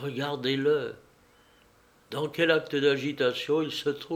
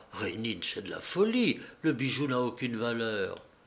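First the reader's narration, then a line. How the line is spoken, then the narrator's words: Murmured. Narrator (French): Hortense murmura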